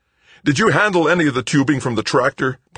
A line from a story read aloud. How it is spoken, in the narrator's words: Paul shouted into his helmet microphone